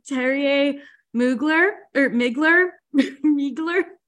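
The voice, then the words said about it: Put-on foreign accent. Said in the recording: “I'm going to have to use an accent.”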